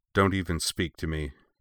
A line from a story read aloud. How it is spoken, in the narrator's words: Anakin said coldly